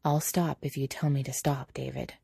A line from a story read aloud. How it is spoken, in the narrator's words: Quietly, Patrick says